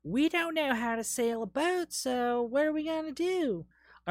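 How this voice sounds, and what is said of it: Put-on Southern accent. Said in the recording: “I don't know why I did a Southern accent.”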